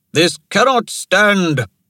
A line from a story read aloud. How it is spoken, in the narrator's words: Toramana shouted